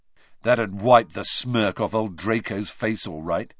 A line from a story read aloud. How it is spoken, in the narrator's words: said Ron